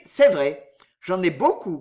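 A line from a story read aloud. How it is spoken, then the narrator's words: Plain. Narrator (French): qu'il dit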